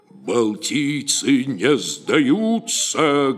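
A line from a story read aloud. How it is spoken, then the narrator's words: Menacing bass, straining. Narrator (Russian): грозно пробасил Норт, силясь вырваться из объятия огромного гада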